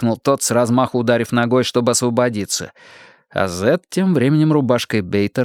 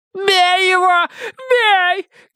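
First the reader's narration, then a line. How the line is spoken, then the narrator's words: Shouting woman. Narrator (Russian): кричала дама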